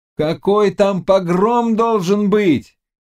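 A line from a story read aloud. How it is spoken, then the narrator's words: Shouting. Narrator (Russian): кричал он Захару, забывая, что тот не мог разделять его радости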